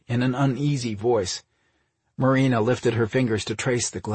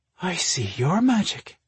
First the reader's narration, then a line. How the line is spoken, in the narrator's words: breathed